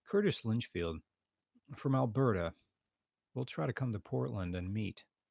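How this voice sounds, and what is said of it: Strained, fading voice, speaking quietly. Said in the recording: “I'm going to speak quieter. I'm going to be up on the mic now because my voice is going.”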